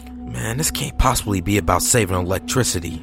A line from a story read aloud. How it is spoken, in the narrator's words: mumbled